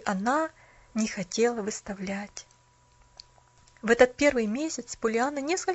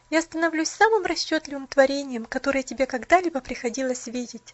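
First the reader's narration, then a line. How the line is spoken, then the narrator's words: Bitter laughter. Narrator (Russian): горестно смеялась она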